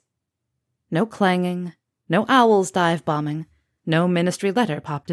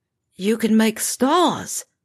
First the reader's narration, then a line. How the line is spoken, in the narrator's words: he said hoarsely